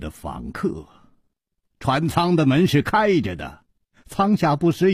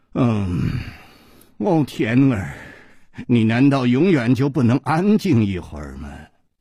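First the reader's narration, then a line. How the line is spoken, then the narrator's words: Low, alluring voice. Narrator (Chinese): 一声低沉却充满了煽动的吸引力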